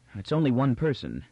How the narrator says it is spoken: said Turan with open relief, and his voice was almost shaky

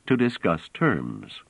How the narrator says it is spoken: said Trevise calmly

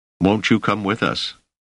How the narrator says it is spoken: Selden had asked anxiously

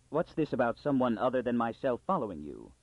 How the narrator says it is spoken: Pritcher intervened sharply

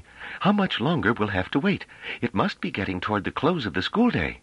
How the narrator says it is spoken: said Pellaret uneasily

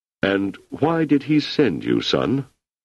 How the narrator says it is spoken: His voice slightly muffled, he said

